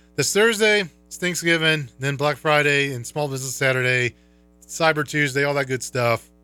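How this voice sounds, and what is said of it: Hoarse voice from illness. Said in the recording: “I'm getting hoarse, because I am under the weather.”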